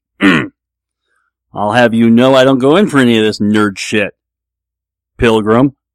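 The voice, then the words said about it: Poor John Wayne style impression. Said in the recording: “Here's John Wayne sitting down at the table ... it was a terrible impression”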